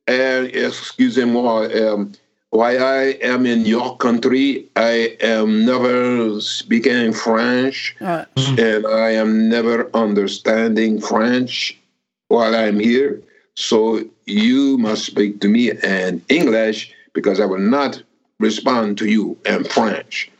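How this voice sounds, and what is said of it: Put-on French accent. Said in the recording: “I was doing a French accent”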